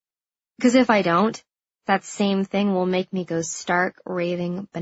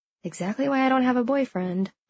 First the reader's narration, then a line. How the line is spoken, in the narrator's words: I whisper